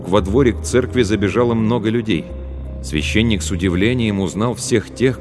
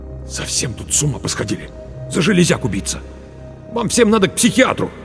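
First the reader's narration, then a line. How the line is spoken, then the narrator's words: Through gritted teeth. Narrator (Russian): Марк процедил сквозь зубы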